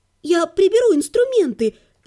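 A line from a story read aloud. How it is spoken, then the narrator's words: Fawning babble. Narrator (Russian): заискивающе пролепетала я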